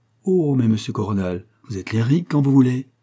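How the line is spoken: Gently teasing exclamation. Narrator (French): s'écria Lucienne avec une pointe de moquerie bienveillante, puis sérieuse

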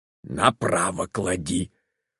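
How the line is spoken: Whisper. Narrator (Russian): шепнул Степан Аркадьевич Левину

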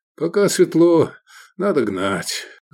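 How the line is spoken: Sighing. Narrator (Russian): вздохнул Искандер

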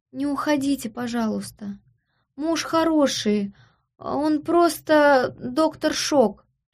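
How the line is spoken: Pregnant creature's plaintive moan. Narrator (Russian): жалобно простонала беременная мрагулка

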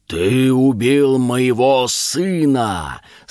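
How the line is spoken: Serpent's terrible spitting roar. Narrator (Russian): страшно проревел змей, брызжа ядовитой слюной

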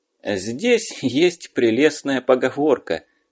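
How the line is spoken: Laughing. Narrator (Russian): засмеялся переводчик

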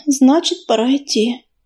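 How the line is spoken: Sighing. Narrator (Russian): вздохнула Медуница

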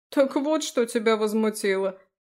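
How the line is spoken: Laughing loudly. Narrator (Russian): захохотал Фрей

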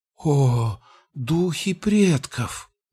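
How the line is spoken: Breathless gasp. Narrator (Russian): выдохнула Эйлара

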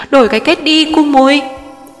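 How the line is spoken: Whining. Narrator (Vietnamese): Con Tùn rên rỉ

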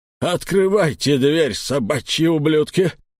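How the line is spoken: Cracking voice barking. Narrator (Russian): сорвавшимся голосом рявкнул он

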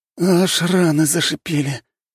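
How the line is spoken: Pained moan. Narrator (Russian): простонал один из бойцов

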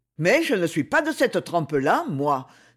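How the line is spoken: Rebellious exclamation. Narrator (French): s'écria avec un geste de révolte

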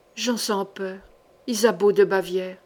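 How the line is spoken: Murmured. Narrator (French): murmura Passavant

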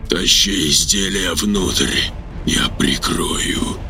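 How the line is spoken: Quiet over roaring static. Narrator (Russian): тихо сказал Анатолий сквозь рев помех

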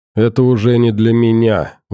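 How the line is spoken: Sighing. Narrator (Russian): вздохнул Громов

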